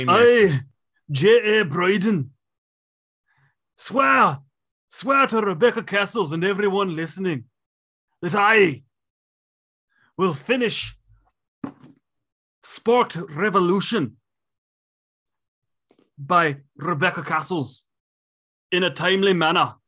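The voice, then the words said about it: Bad put-on accent, sometimes Irish-sounding. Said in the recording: “this terrible accent that sometimes sounds Irish”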